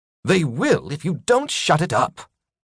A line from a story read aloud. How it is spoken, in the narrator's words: Markov snapped